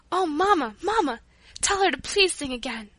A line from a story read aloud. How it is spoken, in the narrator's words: When Paula had finished, she exclaimed